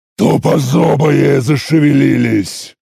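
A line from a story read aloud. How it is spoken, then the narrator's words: Growled. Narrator (Russian): прорычал я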